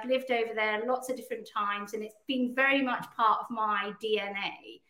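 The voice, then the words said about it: British accent. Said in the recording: “despite my accent, I'm actually Canadian as well as British”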